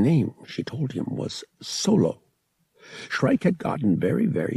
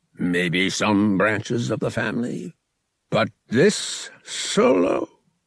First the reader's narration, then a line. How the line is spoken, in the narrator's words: he sputtered, wheezing with merriment